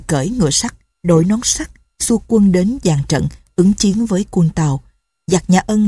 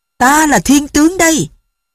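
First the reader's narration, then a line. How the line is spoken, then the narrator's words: Child's loud shout. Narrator (Vietnamese): đứa bé thét to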